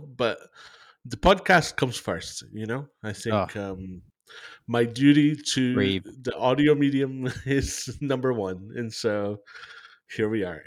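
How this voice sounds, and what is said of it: Voice of someone with a cold. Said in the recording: “I have a cold. Should I say that on the podcast? I have a cold”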